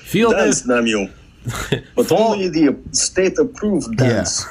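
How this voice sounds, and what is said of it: Exaggerated movie-villain Russian accent. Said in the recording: “Still defaulting to my 80s movie bad guy Russian accent.”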